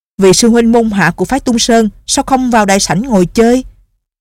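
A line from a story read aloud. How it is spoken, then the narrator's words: Angry, loud. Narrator (Vietnamese): Không dằn được tức giận, hắn giọng một cái rồi lớn tiếng nói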